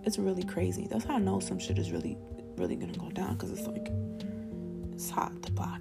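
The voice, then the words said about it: Spanish-accented English. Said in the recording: “I'm Spanish. I say shit weird because of my accent”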